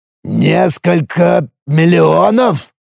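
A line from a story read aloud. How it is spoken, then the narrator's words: Stunned mutter. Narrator (Russian): ошеломленно пробормотал Драксор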